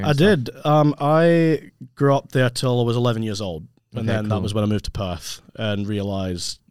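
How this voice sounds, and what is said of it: Noticeable Scottish accent. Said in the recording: “You've obviously got an accent ... I'm originally from Scotland.”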